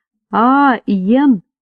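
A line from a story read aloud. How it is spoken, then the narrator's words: Quiet address. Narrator (Russian): тихо обратился ко мне Финбоу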